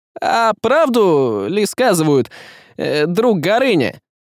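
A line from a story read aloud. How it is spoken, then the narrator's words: Loud, false tone. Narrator (Russian): произнес он громко и фальшиво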